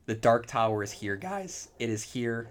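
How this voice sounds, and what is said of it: Excited voice cracking. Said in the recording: “My voice just cracked.”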